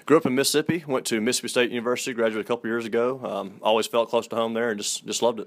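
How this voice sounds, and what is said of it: Southern American accent. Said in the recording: “that Southern gentleman, and I can hear it in your voice. I love the Southern accent.”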